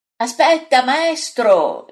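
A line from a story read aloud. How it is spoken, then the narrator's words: Shouting after someone. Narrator (Italian): gli grida dietro Pietro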